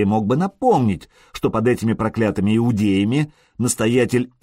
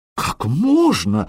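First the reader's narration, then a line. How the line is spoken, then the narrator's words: Frightened exclamation. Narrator (Russian): воскликнул испуганный настоятель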